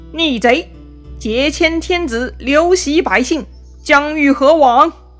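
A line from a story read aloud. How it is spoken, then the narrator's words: Loud shout. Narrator (Chinese): 曹操大叫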